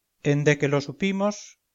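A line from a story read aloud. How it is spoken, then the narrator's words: Plain. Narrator (Spanish): dijo la Narcisa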